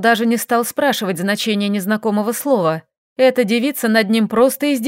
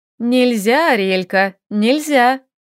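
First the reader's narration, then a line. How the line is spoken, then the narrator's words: Snide. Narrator (Russian): ехидно произнесла Лиля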